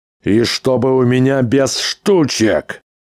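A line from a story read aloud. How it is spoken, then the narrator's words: Booming farewell. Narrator (Russian): Прогремел на прощание Нильзевул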